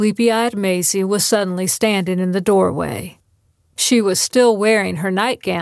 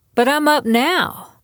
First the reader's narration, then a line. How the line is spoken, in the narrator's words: Maisie insisted, her voice growing stronger